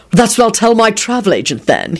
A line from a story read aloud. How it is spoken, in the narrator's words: he barked back